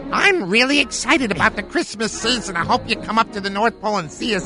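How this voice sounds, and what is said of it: Elf character voice. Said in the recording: “this is Vinny the Elf ... I hate it when I have to drop the accent.”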